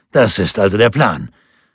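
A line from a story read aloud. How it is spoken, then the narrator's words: Exclaiming. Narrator (German): rief Schwarz aus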